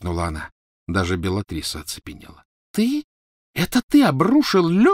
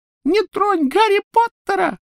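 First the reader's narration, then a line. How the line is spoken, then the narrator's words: Squeaky. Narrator (Russian): пропищал он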